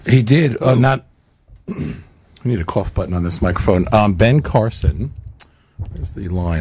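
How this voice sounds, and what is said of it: Unusually deep voice. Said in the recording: “Making fun of my deep voice ... What happened to your voice?”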